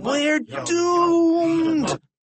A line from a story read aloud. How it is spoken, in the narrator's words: cried Harold